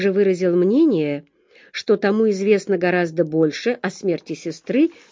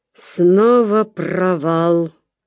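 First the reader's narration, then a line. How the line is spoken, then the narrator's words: Growl. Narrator (Russian): прорычал комиссар полиции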